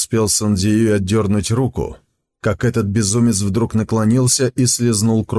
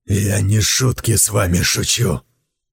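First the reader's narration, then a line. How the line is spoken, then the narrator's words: Hissing male voice. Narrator (Russian): прошипел он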